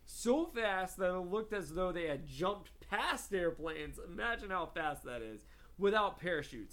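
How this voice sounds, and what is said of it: Odd Southern US Georgia accent. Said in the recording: “my weird Georgian northern accent coming out ... I sound like I'm not from this planet. It's very odd.”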